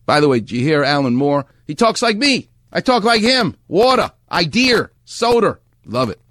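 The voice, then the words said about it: New York accent. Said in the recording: “That's a New York accent. That's a Far Rockaway accent.”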